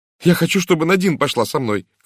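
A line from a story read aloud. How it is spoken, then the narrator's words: Shouting girl. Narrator (Russian): крикнула девушка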